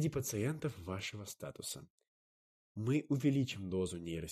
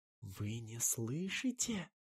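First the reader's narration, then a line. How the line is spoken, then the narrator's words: Very faint whisper. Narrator (Russian): Прошептала так тихо, что едва разобрал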